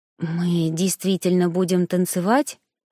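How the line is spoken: Asked under breath. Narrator (Russian): спросила я вполголоса

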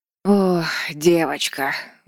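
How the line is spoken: Sighing. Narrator (Russian): вздохнула Бертиль

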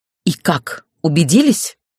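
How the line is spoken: Furious through teeth. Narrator (Russian): вне себя от ярости процедила я

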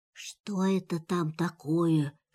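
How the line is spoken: Whisper. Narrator (Russian): шепнул тигр Пятачку

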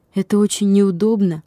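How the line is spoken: Plain. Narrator (Russian): сказал он

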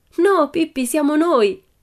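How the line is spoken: Shrieked. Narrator (Italian): strillò Annika

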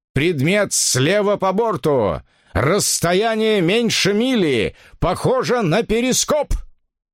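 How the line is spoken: Shouted lookout call, repeated. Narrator (Russian): выкрикнул дозорный на баке и повторил вахтенный на палубе

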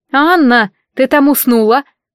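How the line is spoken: Interrupting. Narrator (Russian): прервала мои размышления Урсула

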